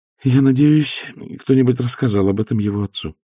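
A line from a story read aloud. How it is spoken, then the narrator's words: Sighing. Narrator (Russian): вздохнула графиня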